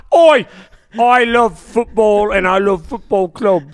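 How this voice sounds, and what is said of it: Put-on British accent. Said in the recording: “that fucking annoying accent”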